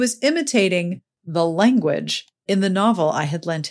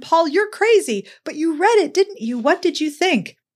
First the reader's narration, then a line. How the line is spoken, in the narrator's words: I laughed and yelled at him